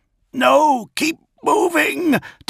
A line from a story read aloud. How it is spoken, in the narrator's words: Dantioch yelled